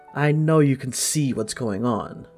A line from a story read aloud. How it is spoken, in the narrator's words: the woman says coldly